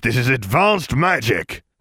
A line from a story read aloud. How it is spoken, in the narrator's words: Sirius spat